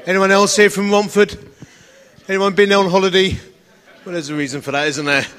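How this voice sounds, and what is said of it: Essex English accent. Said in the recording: “As you can tell from my beautiful accent, I'm from a place called Romford in Essex.”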